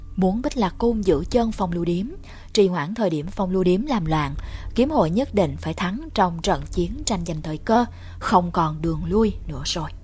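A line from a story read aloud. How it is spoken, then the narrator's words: Faint smile. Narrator (Vietnamese): Đường Lệ Từ khẽ mỉm cười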